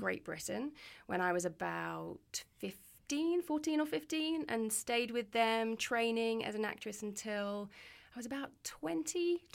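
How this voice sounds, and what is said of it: English accent. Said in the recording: “I'm from England. ... This is my real accent.”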